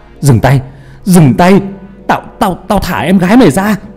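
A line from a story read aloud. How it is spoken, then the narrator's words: Desperate shout. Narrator (Vietnamese): Hà thì lúc đó bỏ mặc sợ hãi mà hét lên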